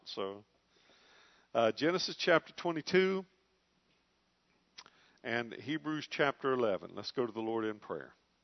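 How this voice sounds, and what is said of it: Slightly strained, congested voice. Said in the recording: “My voice is in a little bit better shape tonight than it was on Sunday, but I'm still bearing a little bit of the aftermath of a sinus infection”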